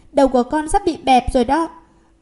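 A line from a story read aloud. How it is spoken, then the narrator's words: Squeezed child speaking loudly. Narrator (Vietnamese): Tiểu Hạo Trạch bị kẹp ở giữa, lớn tiếng nói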